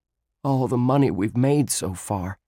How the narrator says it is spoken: he said in a shaky voice

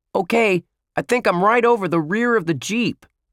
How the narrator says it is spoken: Lenny yelled

